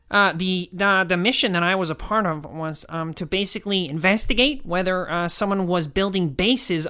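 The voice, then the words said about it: Nerdy NASA scientist character voice. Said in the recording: “I should do a voice for him. ... I'm going to do like a NASA egghead.”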